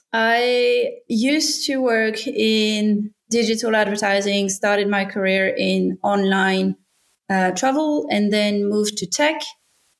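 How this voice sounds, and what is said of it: French accent. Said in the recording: “I'm from France originally. You can probably tell from my accent”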